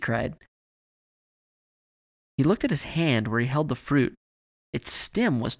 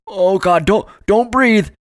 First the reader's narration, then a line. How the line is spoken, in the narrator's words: Evan yelled